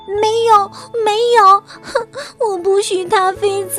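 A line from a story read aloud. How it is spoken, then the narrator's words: Crying child. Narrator (Chinese): 小鼹鼠哭着说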